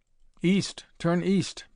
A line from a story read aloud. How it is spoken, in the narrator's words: begged the little voice from the radio